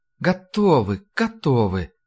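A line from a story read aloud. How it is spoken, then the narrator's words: Purring. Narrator (Russian): промурлыкала Ларри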